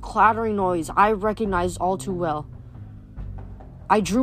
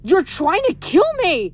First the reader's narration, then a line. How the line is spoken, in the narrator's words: Nico screamed